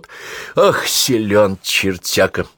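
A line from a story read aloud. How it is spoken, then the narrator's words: Noisy exhale. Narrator (Russian): шумно выдохнул наводчик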